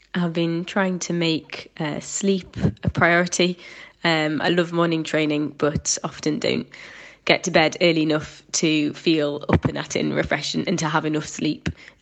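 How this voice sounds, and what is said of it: Slightly congested, cold-affected voice. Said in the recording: “As you might be able to tell, I've got a little bit of a cold”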